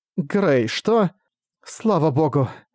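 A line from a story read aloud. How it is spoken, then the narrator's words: Relieved sigh. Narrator (Russian): Облегченно вздохнув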